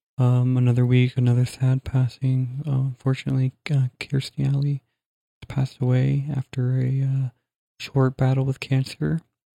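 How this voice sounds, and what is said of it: Very quiet, subdued speech. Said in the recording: “I've never talked that quiet in my life. ... you're talking so quiet”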